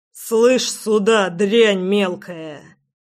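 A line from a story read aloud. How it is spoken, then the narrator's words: Growled. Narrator (Russian): Прорычал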